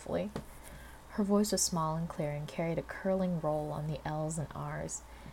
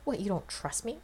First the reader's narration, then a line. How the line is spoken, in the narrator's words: Rodney scoffed